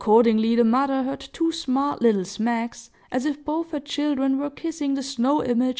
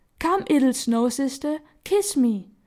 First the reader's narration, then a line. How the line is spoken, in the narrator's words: cried Peony